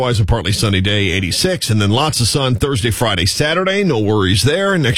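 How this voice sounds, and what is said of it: Usual voice. Nothing is said of it.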